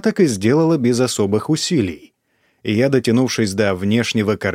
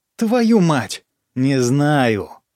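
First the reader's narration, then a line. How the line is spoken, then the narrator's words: Through gritted teeth. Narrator (Russian): сквозь зубы процедила я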